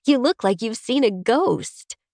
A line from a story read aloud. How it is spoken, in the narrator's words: she says, laughing